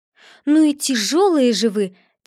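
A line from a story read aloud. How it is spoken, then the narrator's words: Impatient girl exclaiming. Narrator (Russian): теряя терпение, воскликнула девочка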